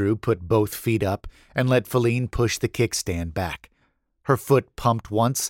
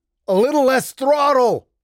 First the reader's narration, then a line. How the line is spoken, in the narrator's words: Andrew shouted